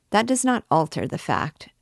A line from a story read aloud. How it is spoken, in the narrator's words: dryly responded Damoiselle Oudard